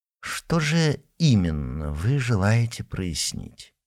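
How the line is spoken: Very quiet, slow. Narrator (Russian): А говорил так тихо, так медленно

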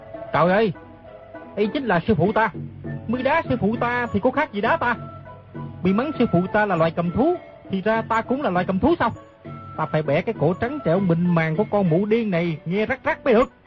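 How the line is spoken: Loud angry shout. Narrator (Vietnamese): Nam Hải ngạc thần quát lớn

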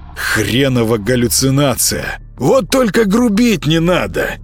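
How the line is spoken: Hoarse cat. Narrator (Russian): прохрипел кот

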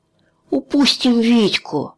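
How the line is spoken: Nervous groan. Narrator (Russian): застонал нервный Кеша

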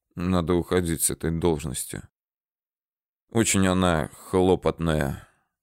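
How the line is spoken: Quiet, spitting blood. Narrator (Russian): Чапыга пуская кровавую слюну изо рта, тихо произнес

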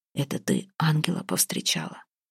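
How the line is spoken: Whisper in ear. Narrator (Russian): Ваята шепнул в ухо

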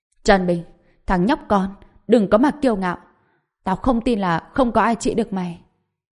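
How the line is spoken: Angry, pressured shout. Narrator (Vietnamese): không chịu nổi áp lực, tức giận hét lên

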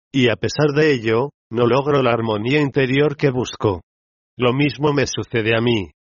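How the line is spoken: Mother's sorrowful musing. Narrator (Spanish): reflexionaba la progenitora con tono apesadumbrado

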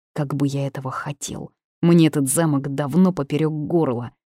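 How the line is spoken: Rude growl. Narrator (Russian): зарычал в ответ этот хам

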